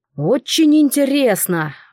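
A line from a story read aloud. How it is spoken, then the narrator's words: Exclamation. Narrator (Russian): воскликнул меж тем господин Кардиу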